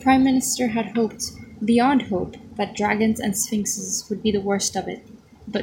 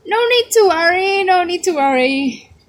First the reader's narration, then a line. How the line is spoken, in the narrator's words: shouted Fudge